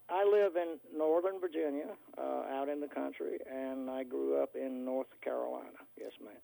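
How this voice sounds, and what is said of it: Southern American accent. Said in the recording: “It sounds like a southern state.”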